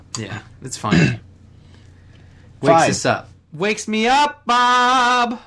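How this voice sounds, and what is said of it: Yelling loudly. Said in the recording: “Why are you yelling at me?”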